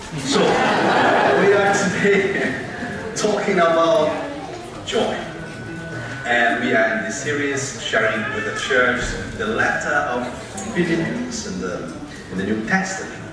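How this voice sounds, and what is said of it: Glaswegian Scottish accent. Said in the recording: “by my accent, you can see I'm from Glasgow”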